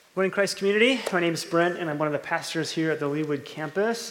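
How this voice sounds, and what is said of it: Slightly sick, sore-throated voice. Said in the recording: “I sound a little sick. ... I woke up with a, a sore throat this morning”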